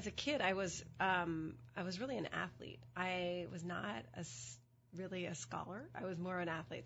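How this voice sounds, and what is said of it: Slightly hoarse voice. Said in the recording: “I have a bit of a cold... My voice is a little bit hoarse.”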